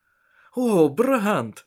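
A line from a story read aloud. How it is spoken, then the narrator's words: Excited male voice. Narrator (Russian): взволнованно произнес Еспер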